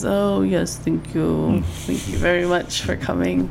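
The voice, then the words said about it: Put-on German accent. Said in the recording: “I've never heard you do a German accent before... It's bad... I'm enjoying it, actually. It's way better than your French accent.”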